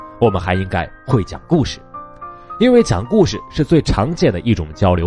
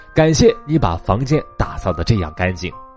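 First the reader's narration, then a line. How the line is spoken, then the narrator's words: Smiling, warm. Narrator (Chinese): 肯尼迪向他报以微笑，说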